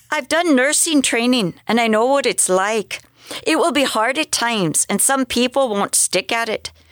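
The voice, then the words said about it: Put-on Irish accent. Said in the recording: “I just had to do that with an Irish accent... is that an accurate Irish accent? We're not sure... I don't know if it's from the north, because the north tends to be a little harder than the south”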